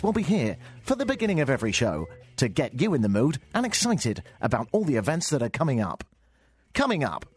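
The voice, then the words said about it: Exaggerated radio DJ voice. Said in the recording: “my new improved DJ voice... Imagine if I spoke like that all the time... in music radio”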